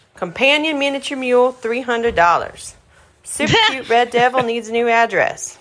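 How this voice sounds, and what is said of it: Deliberately bad Texas accent. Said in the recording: “my really bad Texas accent”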